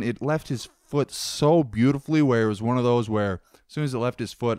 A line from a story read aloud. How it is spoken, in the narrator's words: I shouted